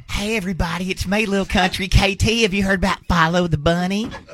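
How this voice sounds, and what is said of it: Impersonation with a country voice. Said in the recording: “does a great KT impersonation.”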